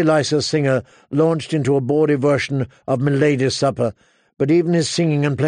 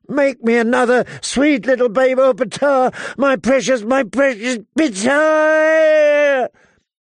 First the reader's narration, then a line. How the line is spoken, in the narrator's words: Her last shriek was so loud